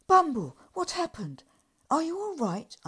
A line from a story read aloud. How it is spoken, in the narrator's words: cried